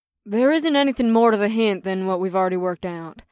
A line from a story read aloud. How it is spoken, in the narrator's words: the white-haired Chero woman sighed